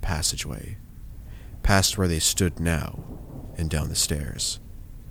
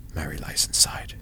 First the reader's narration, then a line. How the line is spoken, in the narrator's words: he whispered